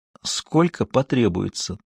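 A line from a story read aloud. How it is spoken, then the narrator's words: Whisper. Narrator (Russian): тоже шепотом ответила Хейзел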